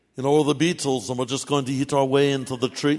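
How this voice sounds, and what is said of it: Put-on Liverpool accent. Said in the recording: “That was a beetle imitation, by the way. I'm talking like a beetle ... I'm a Liverpudlian, you know.”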